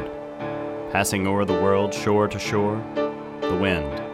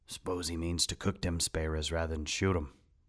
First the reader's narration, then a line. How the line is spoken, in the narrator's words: mumbled Brack